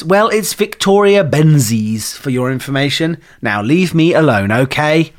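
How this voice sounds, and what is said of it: Annoyed voice. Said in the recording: “in an annoyed voice.”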